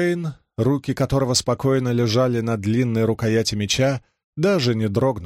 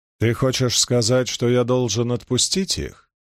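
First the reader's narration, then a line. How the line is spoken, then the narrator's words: Calm question. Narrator (Russian): спокойно спросил он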